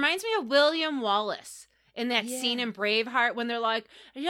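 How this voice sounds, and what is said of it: Usual voice. Nothing is said of it.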